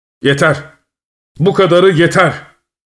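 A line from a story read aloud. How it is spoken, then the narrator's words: Shouted. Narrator (Turkish): diye bağırdı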